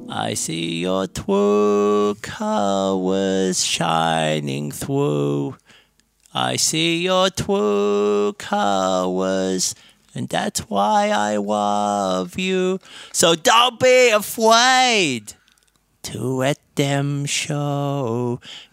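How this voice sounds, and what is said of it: Singing in Elmer Fudd cartoon voice. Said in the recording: “my impression of Elmer Fudd singing True Colors by Cyndi Lauper”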